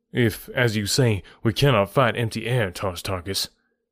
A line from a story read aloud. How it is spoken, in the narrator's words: I replied